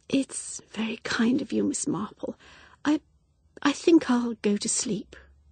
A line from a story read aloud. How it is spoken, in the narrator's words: She said in a voice that was almost a whisper